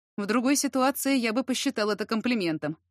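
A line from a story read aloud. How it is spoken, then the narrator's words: Snort. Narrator (Russian): хмыкнул Яр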